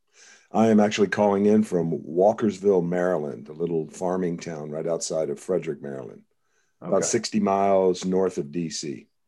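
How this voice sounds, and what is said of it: Deep voice from being under the weather. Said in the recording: “you're a little bit under the weather. That's why you got ... radio voice”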